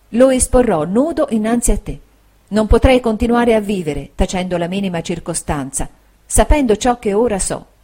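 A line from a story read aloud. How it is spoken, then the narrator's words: Soft, quiet, tender voice. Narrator (Italian): disse con voce piana, sommessa e tenera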